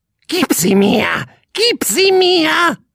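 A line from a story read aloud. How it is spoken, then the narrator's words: Bird croaking. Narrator (German): krächzte der Vogel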